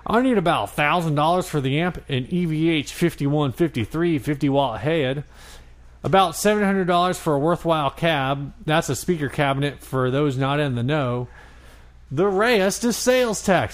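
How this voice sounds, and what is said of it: Put-on Texan accent. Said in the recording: “Why is this Texan? I'm doing this in a Texan accent.”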